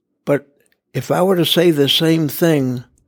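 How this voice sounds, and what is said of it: Usual voice. Nothing is said of it.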